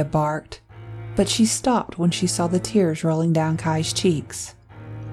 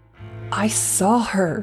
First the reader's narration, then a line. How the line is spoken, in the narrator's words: Kai choked